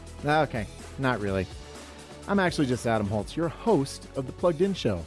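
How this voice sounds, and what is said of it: Usual voice. Nothing is said of it.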